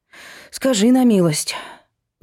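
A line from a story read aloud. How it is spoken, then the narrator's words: Sigh. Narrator (Russian): вздохнула Машка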